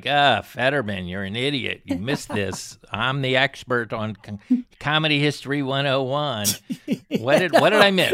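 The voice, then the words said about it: Imitates another person's voice. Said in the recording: “was that your impression of me? ... I'm not good on impressions.”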